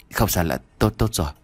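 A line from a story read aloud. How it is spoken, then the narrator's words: Hesitant whisper. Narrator (Vietnamese): khựng lại, rút tay về thì thầm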